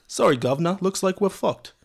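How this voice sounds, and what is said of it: Put-on British accent. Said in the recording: “I feel like my British accent might be okay”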